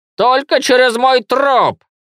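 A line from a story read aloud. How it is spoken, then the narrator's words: Old woman shouting. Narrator (Russian): крикнула старуха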